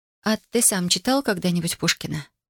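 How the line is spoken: Barely audible question. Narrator (Russian): спросила она едва слышно

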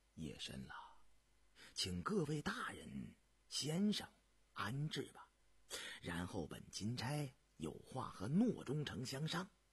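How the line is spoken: Soft, quiet. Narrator (Chinese): 涂礼琛轻声道

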